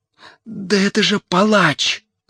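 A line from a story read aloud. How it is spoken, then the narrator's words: Whisper. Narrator (Russian): зашептал Мотя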